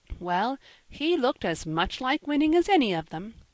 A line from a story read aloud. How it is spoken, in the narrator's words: said the lady, laughing